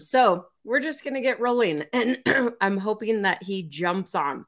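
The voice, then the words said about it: Hoarse, fading voice. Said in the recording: “I'm losing my voice again... I screamed like my little 11-year-old girl”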